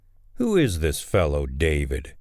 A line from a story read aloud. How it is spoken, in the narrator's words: Nabal sneered to the young men